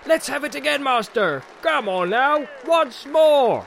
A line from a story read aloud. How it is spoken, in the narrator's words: began to shout